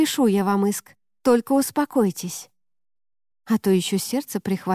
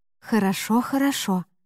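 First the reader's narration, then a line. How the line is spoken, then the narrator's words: Sighing. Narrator (Russian): вздохнула я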